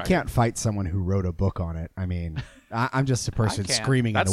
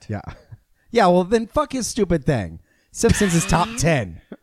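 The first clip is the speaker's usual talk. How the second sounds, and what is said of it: Screaming, odd put-on accent. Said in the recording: “Where'd you get that accent? ... That's the way I talk when I scream.”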